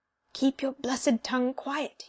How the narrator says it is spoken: he whispered

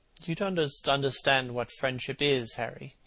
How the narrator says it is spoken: he murmured

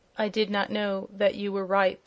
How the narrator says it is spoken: answered the prince in a low voice

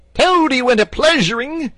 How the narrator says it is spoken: he yelled

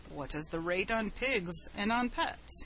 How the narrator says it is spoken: he asked

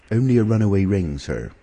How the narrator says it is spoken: answered

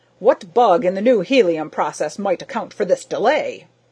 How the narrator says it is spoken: Gryce barked

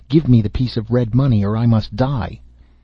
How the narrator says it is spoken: the leper, cried out, and said

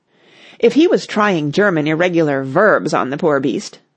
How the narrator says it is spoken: said Clovis

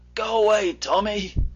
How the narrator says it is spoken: said Jim feebly

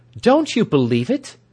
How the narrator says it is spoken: she cried

